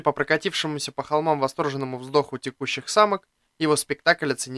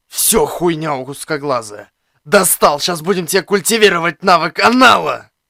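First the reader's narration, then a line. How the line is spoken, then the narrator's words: Wounded hiss, spitting blood. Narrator (Russian): Прошипел я, выдергивая шип из грудины и сплёвывая на землю кровь с куском легкого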